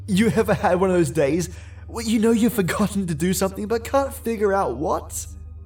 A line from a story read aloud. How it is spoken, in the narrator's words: I laughed as I said it